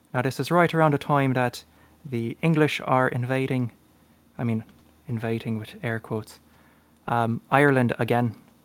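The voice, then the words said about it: Put-on Irish accent. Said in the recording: “a good Irish lad from Cork ... Sorry, I'll stop the accent. It's a little annoying at times to keep up.”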